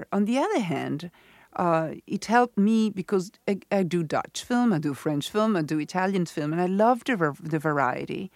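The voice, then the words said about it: Noticeable foreign accent in English. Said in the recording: “I've tried very much to camouflage my accent with other accent. I was unable to erase my accent and speak with English perfectly well.”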